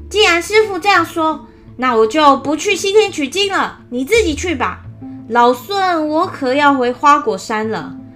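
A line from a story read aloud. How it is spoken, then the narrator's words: Loud, angry. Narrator (Chinese): 孙悟空最受不了别人的气了，压不住心中的怒火，高声的说道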